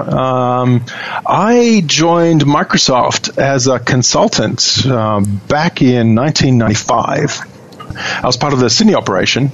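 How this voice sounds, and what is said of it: Australian accent. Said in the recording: “your Australian accent ... Aussie”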